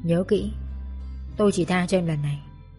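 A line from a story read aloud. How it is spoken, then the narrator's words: Cold. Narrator (Vietnamese): trán lấm tấm mồ hôi, lạnh lùng nói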